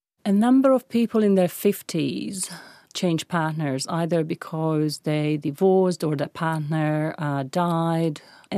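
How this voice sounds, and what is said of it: Hungarian accent. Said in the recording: “I'm Hungarian. That's the funny accent”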